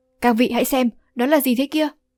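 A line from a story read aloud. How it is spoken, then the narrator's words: Startled cry. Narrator (Vietnamese): Phiên Thiên Báo Tề Đông Giã cũng kêu lên một tiếng sừng sốt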